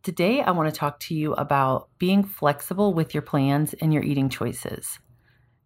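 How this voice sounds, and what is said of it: Sick, rough-sounding voice. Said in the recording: “I have been sick, so I'm sorry if my voice sounds crazy”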